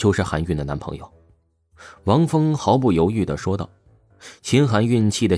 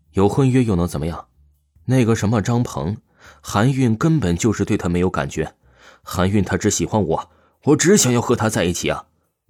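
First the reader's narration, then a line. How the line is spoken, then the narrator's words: Forceful. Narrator (Chinese): 王峰强势说道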